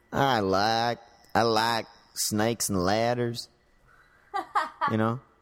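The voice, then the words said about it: Put-on Texan accent. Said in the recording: “Let's say they're from Texas. ... that was decent.”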